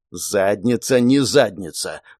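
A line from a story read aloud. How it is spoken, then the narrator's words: Growled. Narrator (Russian): прорычал начальник базы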